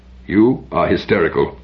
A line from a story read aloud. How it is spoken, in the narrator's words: said Aratap